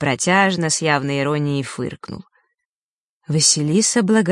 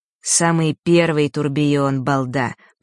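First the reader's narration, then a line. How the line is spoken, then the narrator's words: Through clenched teeth. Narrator (Russian): процедил Фэш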